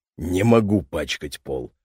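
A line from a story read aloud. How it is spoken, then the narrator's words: Muttering guest. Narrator (Russian): пробормотал гость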